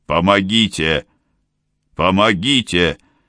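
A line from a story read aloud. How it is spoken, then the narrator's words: Shouting. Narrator (Russian): закричал де Пальма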